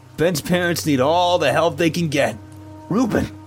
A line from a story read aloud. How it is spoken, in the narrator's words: Miss Christine snapped